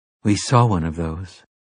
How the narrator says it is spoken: she said quietly

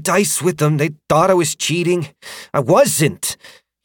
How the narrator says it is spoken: he snapped

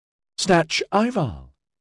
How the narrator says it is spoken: Dinlay said excitedly

